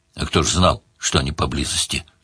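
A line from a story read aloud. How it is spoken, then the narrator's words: Deep unrepentant dwarf voice. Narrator (Russian): пробасил гном без малейшего раскаяния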